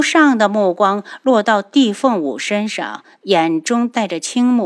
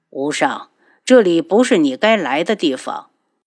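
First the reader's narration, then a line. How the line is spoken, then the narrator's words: Cold shocked. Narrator (Chinese): 帝凤鸣……脸色顿时大变，冷声道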